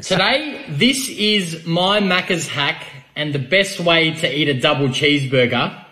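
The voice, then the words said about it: Australian accent. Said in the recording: “he's Australian ... Hard to hear ... He's got an Australian accent. He's from Australia. He's from down under.”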